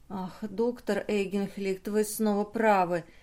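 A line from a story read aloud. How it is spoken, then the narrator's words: Smiling through tears. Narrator (Russian): сказала Друзила, улыбаясь сквозь слезы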